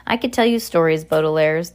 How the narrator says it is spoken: the Count Olaf said in a muffled whiz, wheeze

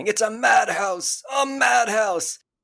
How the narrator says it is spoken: spraying him with a hose and he's yelling

